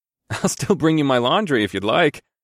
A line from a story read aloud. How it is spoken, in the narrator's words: I chuckled